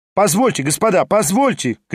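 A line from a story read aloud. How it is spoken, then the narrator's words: Shouting. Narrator (Russian): кричал Хромой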